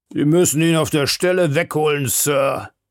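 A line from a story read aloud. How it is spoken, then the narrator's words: Portly man calling out. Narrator (German): rief ein wohlbeleibter Mensch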